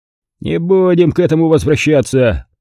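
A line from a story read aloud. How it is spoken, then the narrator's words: Displeased grumble. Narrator (Russian): недовольно проворчал Стентон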